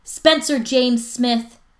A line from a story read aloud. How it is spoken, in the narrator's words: his mom yells